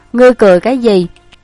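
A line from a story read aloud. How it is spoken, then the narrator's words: Angry woman. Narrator (Vietnamese): nàng bỗng nhiên không nhịn được, tức giận nói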